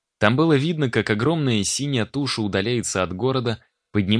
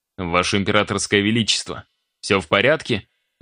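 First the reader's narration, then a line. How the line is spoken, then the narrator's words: Even-toned inquiry. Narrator (Russian): Ровным тоном поинтересовался Смирнов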